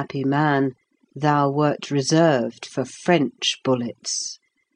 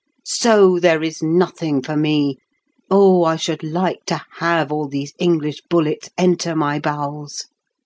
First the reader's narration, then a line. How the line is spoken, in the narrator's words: he shouted